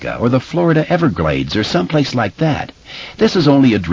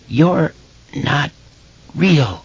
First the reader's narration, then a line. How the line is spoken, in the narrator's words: Eddie choked